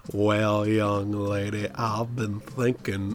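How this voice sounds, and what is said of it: Deep, thick Southern drawl. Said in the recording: “he's got this accent, is the most southern honey drip drawl I've ever heard in my life ... It's basically like a deeper Stinky from Hey Arnold.”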